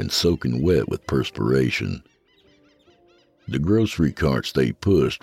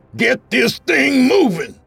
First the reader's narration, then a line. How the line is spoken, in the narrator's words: the lieutenant screamed